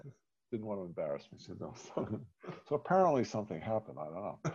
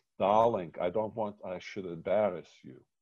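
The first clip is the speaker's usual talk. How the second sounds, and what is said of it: Yiddish Eastern European accent. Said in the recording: “in her Yiddish, you know, Eastern European accent”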